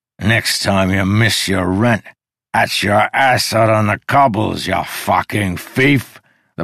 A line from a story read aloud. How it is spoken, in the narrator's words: the barkeep bellowed